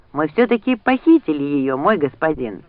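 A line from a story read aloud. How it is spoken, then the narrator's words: Exclaimed. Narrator (Russian): воскликнул Джек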